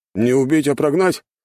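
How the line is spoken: Man's snort. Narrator (Russian): хмыкнул другой мужчина

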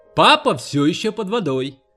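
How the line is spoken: Gleeful shout. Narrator (Russian): Волт подумал, что это такая чертовски веселая игра, и он крикнул Хелен

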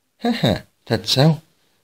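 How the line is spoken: Smiling. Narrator (Vietnamese): Dương Nô Chỉ mỉm cười

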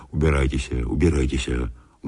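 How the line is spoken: Quiet, resolute and angry. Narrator (Russian): говорил он тихо, так что отец Сергий не мог слышать его, но говорил решительно и сердито

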